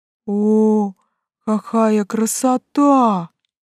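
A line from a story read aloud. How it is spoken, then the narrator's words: Breathless awe. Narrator (Russian): выдохнул Фертюн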